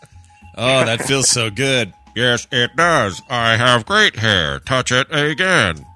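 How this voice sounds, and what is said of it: Stephen Hawking robotic voice impression. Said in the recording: “That's my Stephen Hawking impression. Because he's got a speaking spell strapped to him”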